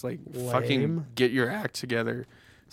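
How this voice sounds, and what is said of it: Voice cracks mid-sentence. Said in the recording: “my voice just cracked so hard”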